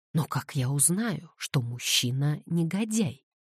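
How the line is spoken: Plain. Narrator (Russian): спросила Кэтлин

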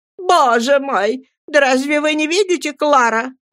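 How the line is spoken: Shouted. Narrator (Russian): крикнула мисс Мордстон

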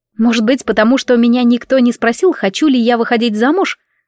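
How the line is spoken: Angry female reply. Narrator (Russian): ответила я зло

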